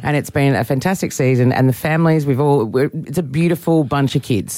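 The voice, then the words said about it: Husky, nearly lost voice. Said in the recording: “You sound husky... I almost lost my voice”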